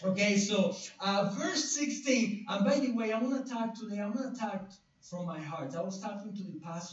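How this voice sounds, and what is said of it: Non-native accented English. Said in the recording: “even with my accent ... It's not about my accent ... I have like a language barrier here”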